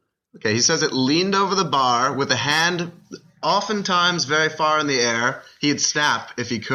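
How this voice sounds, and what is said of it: Usual voice. Nothing is said of it.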